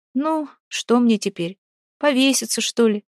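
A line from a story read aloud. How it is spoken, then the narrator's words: Sighed. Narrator (Russian): вздохнула Вася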